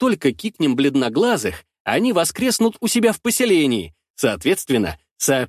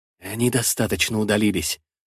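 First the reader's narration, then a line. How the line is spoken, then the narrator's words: Whispered. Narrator (Russian): шепотом сообщает он нам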